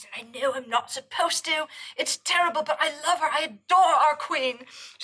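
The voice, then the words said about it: Put-on British accent. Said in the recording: “I like your British accent”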